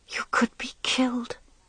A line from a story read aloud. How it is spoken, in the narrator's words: she whispered